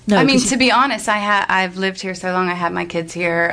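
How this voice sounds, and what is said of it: American accent. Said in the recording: “are you from the States originally? ... my accent gives me away.”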